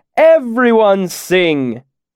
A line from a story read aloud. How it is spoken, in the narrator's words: he shouted